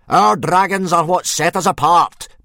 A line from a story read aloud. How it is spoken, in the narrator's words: bellowed Gobba